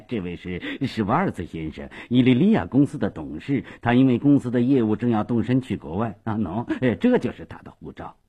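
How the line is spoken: Hurried, cheerful. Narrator (Chinese): 斯瓦索耶忙笑嘻嘻地说

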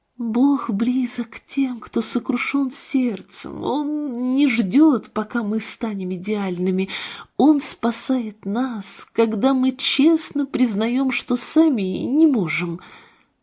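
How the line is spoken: Quiet reply. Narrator (Russian): Марина тихо ответила

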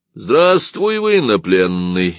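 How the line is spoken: Mildly mocking, not angry. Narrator (Russian): немного насмешливо, но совсем не сердито сказал капитан

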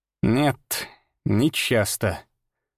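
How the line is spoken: Slow, strange note. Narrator (Russian): сказал он медленно, и в его голосе прозвучала какая-то странная нота

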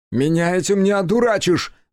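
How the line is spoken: Loud shout. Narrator (Russian): громко крикнул Кику

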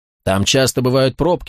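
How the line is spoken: Calm reply. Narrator (Russian): спокойно ответил Тони

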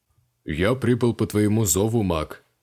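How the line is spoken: Deep bass voice. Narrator (Russian): пробасил Ронов

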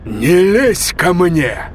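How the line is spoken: Growl. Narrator (Russian): прорычал Блейк

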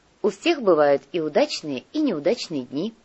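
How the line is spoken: Giggling. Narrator (Russian): хихикнула Снежана

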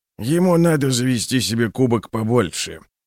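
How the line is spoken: Grumbling. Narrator (Russian): проворчал Клевер

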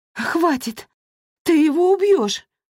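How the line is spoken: Desperate pleading. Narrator (Russian): взмолилась Дорин

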